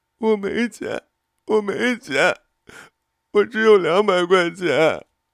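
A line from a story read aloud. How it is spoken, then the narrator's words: Sobbing. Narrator (Chinese): 她呜呜的哭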